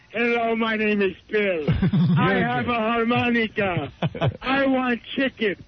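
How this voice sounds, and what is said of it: Comic character voice. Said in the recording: “doing my Bill voice”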